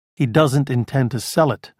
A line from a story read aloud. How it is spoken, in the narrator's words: Rhyme said